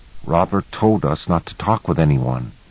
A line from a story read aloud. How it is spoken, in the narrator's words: he said very softly, trying not to let me overhear